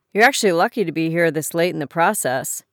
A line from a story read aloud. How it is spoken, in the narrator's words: he said